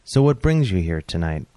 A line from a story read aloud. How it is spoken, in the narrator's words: I asked